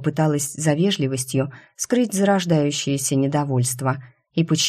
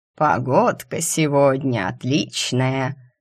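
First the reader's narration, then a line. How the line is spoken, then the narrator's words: Old man's drawl. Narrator (Russian): протянул старичок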